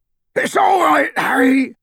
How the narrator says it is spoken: bellowed Hagrid, now thrown flat onto his back by the surge of speed

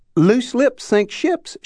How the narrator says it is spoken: chirped

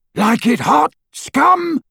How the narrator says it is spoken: roared Crab as he ran

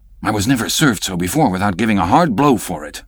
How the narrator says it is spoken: muttered Stubb

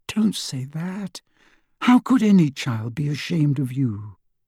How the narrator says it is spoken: whispered, tears in her eyes

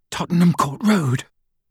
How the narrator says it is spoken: panted Hermione

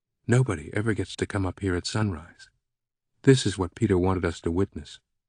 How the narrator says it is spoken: Catherine whispered

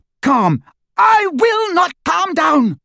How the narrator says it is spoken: she screamed

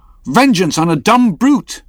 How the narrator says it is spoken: cried Starbuck

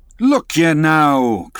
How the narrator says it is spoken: cried the lakeman

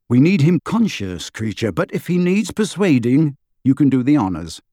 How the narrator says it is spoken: said Harry

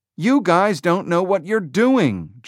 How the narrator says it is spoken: Jobs shouted

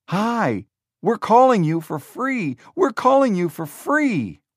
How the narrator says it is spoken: Wozniak shouted

